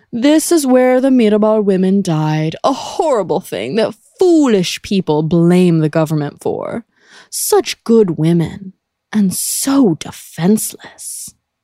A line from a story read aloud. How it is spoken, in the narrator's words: said pompously